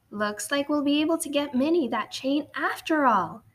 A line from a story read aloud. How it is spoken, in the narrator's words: exclaimed